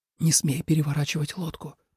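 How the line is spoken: Barely audible whisper. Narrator (Russian): зашептал Тоби, едва шевеля губами, специально, чтобы Леннард его не услышал

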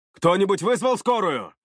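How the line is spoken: Shout after shocked daze. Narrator (Russian): закричал один из сотрудников милиции, выйдя из ступора

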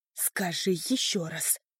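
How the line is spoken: Quiet repeat. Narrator (Russian): повторила я на сей раз тихо

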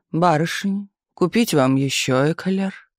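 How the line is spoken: Booming trained bass question. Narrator (Russian): спросил громовым, поставленным басом трагик

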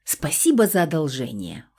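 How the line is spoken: Snorting. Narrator (Russian): фыркнула я

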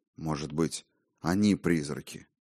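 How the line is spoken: Whisper. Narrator (Russian): прошептал я

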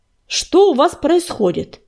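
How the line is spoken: Sharp question. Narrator (Russian): резко спросил огнезвезд

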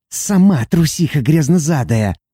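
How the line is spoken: Snapping retort, demoness. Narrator (Russian): огрызнулась демоница

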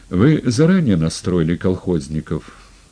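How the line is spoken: Businesslike, concluding tone. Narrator (Russian): деловым тоном, как вывод, заключил Лукин

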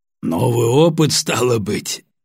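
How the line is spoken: Nervous chuckle. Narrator (Russian): немного нервно хохотнул Батоныч

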